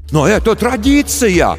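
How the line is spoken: Shouting after someone. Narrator (Russian): кричали ей вслед родители

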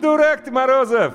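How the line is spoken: Short laugh. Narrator (Russian): хохотнула Люська

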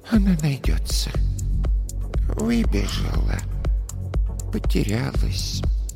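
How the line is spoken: Soft soothing murmur. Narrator (Russian): тихо приговаривала

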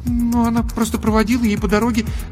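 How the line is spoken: Embarrassed babbling. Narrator (Russian): залепетала Даша, сама понимая, как глупо и смешно выглядит ее ложь

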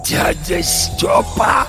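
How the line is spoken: Hoarse, recognizing. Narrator (Russian): прохрипел Горемыкин, узнавая

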